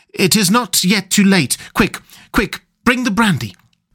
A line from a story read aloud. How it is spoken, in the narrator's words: he cried out to me